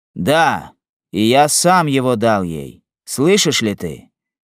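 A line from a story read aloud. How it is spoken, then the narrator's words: Menacing, exasperated voice. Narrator (Russian): Грозным голосом произнес Морис, уже некоторое время слушавший этот разговор, который вывел его из терпения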